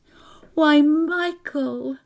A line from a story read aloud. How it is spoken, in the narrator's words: she cried